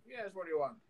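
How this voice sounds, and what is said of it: Mixed Arabian and Canadian accent. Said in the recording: “Why is your accent a mixture of like Arabian and Canadian?”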